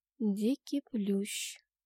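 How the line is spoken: Soft. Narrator (Russian): негромко сказала я

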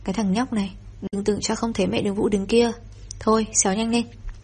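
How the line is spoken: Loud laughing. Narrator (Vietnamese): Tô Lý Thành cười lớn

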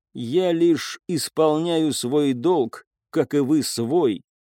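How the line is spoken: Plain. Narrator (Russian): сказала она

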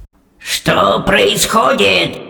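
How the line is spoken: Menacing bark, old witch. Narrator (Russian): грозно гаркнула старшая ведьма

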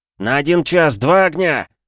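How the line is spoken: Shouted. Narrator (Russian): закричал Андрей

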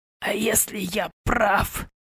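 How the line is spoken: Hoarse rasp. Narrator (Russian): прохрипел Клаврентий

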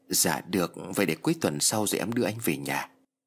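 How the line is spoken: Soft reply. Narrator (Vietnamese): Nhi liền khẽ đáp

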